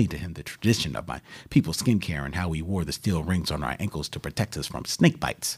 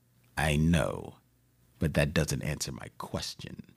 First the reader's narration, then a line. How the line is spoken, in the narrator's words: he coolly said